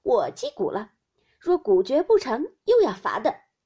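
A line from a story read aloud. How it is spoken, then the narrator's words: Laughing. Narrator (Chinese): 湘云笑道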